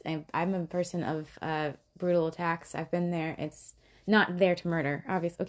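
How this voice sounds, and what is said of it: Shaky, emotional voice. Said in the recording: “my voice gets shaky”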